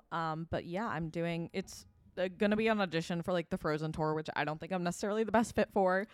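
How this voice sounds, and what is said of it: Slightly sore, sick-sounding voice. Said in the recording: “I'm a little sicky and my voice is a little sore right now”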